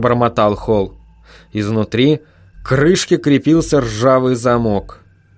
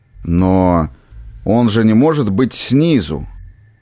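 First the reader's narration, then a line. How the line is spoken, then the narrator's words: Gruff mutter. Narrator (Russian): буркнул Уорвик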